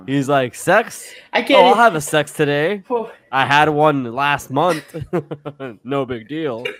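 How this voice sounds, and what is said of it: Imitates another person's voice. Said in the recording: “that's a really, that's a good impersonation.”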